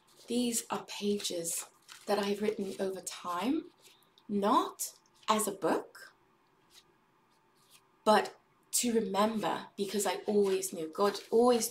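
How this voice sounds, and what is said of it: Put-on British accent. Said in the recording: “you didn't tell me I would get to talk in a British accent today. And by get to, I mean that I would just be doing it for some reason”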